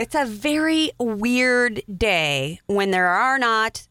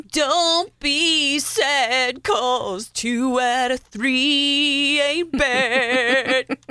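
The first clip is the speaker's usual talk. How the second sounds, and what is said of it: Imitates a singer's voice, rhythm off. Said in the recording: “You like my Meatloaf impression? ... I do, but you had the rhythm a little off.”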